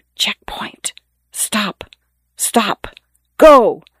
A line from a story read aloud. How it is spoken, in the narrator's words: The muffled voices whisper